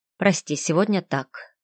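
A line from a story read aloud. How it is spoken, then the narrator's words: Quiet. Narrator (Russian): негромко проговорил он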